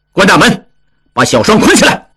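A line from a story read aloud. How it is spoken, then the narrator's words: Stern, sharp. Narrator (Chinese): 王宗宇厉声说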